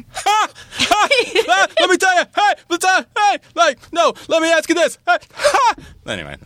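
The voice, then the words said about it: Chris Matthews impression, barking laugh. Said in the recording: “your Chris Matthews impersonation ... the barking laugh. You've got the barking laugh down perfectly”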